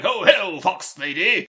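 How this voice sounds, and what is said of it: Imitates a character's voice. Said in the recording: “That was a pretty good impression.”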